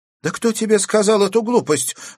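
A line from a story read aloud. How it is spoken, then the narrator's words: Exclaimed. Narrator (Russian): воскликнула Аглая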